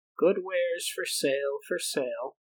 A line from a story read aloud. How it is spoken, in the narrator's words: called out